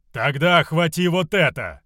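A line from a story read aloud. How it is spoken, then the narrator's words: Booming loud shout. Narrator (Russian): громогласно выкрикнул Равус, чтобы его услышал каждый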